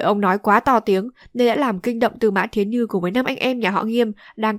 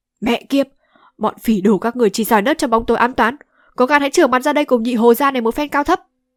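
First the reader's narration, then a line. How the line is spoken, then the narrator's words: Furious cursing. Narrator (Vietnamese): Nhị Hồ tính thẳng thắn nhất, thấy vậy đã biết ngay là đã bị trúng kế điệu hổ ly sơn của kẻ địch, không nén được tức giận mắng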